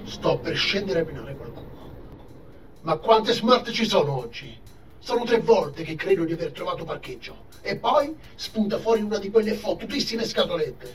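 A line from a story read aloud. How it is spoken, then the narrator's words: Loud grumbling man. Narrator (Italian): brontolò a gran voce l'uomo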